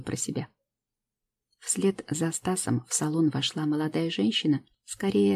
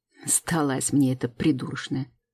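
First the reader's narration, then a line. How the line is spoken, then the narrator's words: Scornful snort. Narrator (Russian): фыркнул блондин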